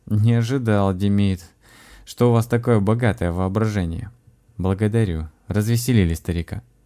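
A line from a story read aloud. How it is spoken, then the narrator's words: Amused, after laughing. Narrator (Russian): Просмеявшись, Басур сказал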